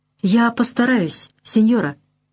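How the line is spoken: Frightened, meek reply. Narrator (Russian): испуганно и покорно отвечает он

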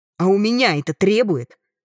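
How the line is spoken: Growled. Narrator (Russian): рыкнула

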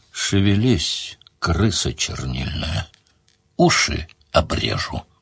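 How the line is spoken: Said threateningly. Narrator (Russian): грозно сказал

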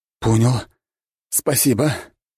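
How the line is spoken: Hoarse wheeze. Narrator (Russian): прохрипел он

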